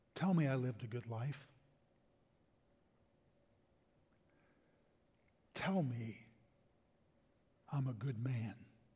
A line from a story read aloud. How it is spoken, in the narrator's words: the older Ryan says very quietly, yet firmly